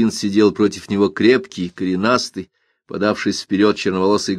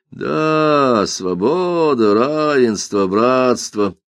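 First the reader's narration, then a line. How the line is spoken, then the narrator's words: Mocking, through teeth. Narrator (Russian): насмешливо повторил Мартин, и слова эти, произнесенные сквозь зубы, превратились в пустой звук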